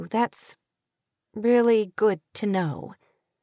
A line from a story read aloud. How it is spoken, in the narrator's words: she said in a faltering voice